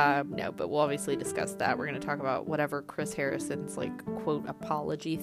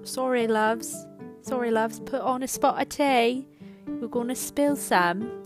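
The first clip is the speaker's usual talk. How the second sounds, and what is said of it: Put-on British accent. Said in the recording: “my annoying British accent”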